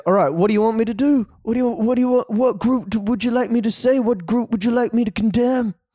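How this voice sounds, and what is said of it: Bad impression of another person's voice. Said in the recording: “That's such a terrible Trump fucking accent.”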